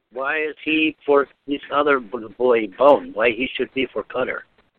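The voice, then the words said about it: A pretty good Czech accent. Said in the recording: “that's a pretty good Czech accent.”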